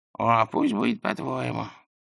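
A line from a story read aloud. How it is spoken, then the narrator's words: Sighing. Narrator (Russian): Лузган снова вздохнул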